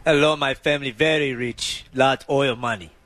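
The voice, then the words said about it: Fake foreign accent, broken English. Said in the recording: “can you fake an accent ... That's perfect. ... I'm not a voice actor.”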